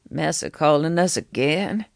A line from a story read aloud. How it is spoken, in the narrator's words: His voice was tired, raspy